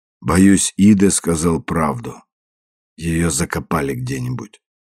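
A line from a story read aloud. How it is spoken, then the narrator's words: Dejected voice. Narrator (Russian): Уайт упавшим голосом ответил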